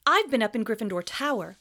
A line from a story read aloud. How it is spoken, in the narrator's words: said Harry